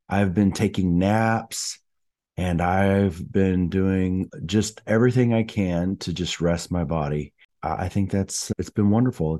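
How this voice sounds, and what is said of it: Voice sounds sick. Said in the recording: “As you can probably tell from my voice, I'm a little bit under the weather.”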